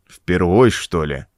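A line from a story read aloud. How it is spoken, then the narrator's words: Unbothered grumble. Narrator (Russian): пробурчал мастер, отнюдь не огорченный таким поворотом событий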